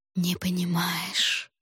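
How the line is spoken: Whispered. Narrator (Russian): шепнула Фэнжулань

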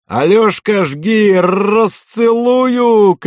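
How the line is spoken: Boatswain's shout. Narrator (Russian): крикнул боцман

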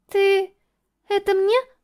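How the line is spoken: Very timid question. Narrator (Russian): Необычайно робко спросила она

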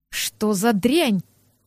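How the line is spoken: Hissed. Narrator (Russian): прошипел Арсель

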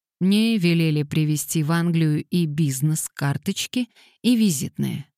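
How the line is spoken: Plain. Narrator (Russian): сказал Свифт

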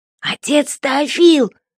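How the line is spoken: Strangled wheeze. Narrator (Russian): сдавленно прохрипел надзиратель

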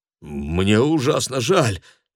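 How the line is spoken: Stammering. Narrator (Russian): Виктор запинается

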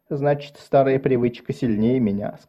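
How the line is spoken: Plain. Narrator (Russian): сказал он

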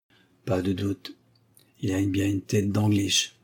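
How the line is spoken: Mumbling. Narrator (French): marmonna-t-il

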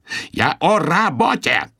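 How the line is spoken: Yell. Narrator (Russian): завопил Ариэль

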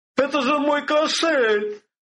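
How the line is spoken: Man's startled cry. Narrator (Russian): вскрикнул рыжеволосый, то ли купец, то ли наемник

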